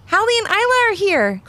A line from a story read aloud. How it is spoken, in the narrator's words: called out Levi